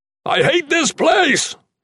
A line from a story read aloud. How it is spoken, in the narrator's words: yelled